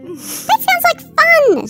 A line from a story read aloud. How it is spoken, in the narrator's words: squealed Trent